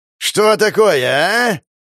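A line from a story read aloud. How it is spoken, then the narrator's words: Yelling. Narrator (Russian): Орал псарь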